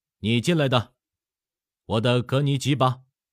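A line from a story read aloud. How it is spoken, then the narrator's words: Loud, grinning. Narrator (Chinese): 咧嘴一笑，大声说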